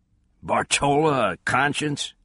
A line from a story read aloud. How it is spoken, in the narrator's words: chuckled